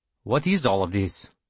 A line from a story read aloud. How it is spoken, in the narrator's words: Borodine asked